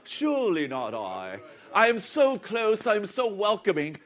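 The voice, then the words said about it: Put-on British accent. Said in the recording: “he has a British accent”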